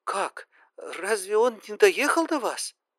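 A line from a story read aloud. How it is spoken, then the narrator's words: Trembling question. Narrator (Russian): Дрожащим голосом спросила она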